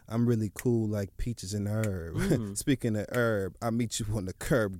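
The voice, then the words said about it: Calm, slow, steady low-key voice. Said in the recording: “I like the way my voice sounds much better when I talk like this, so I'm going to try to hold this tone the entire show... Slow and steady... Don't raise my voice”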